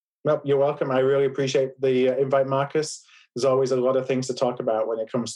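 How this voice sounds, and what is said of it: Yorkshire English accent. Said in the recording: “as folks can probably tell from the accent, I'm from the UK originally and from Yorkshire”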